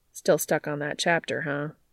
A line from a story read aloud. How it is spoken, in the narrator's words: Cass sighs